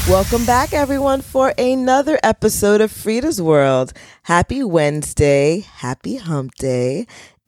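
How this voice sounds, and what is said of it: Low, scratchy voice from a cold. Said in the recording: “my voice is another octave lower. It's still a little scratchy ... this cold, viral cold infection”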